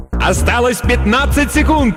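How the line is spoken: Yelling announcer. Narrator (Russian): завопил другой диктор

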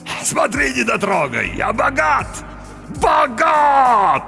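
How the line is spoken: Shouted. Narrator (Russian): закричал он

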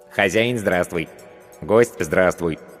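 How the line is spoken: Funny cartoonish voice. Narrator (Russian): произнесло оно смешным мультяшным голосом

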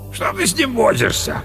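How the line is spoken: Deep booming drone. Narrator (Russian): прогудел пожиратель лосятины

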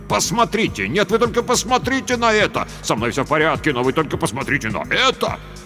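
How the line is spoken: Yelling. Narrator (Russian): Никол вопил

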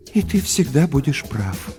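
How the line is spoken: Mother's sigh. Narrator (Russian): вздохнула мама

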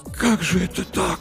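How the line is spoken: Whisper. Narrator (Russian): прошептал Артамонов

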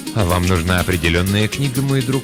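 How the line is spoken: Plain. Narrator (Russian): спросил он

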